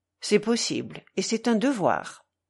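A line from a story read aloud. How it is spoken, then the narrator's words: Firm declaration. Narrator (French): déclara Alyosha d'un ton ferme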